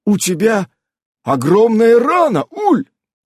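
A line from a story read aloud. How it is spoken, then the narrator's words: Frightened cry. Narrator (Russian): испуганно вскрикнул он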